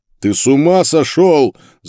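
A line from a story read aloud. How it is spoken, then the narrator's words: Yell. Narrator (Russian): заорал Карл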